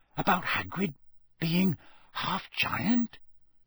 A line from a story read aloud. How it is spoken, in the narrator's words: he whispered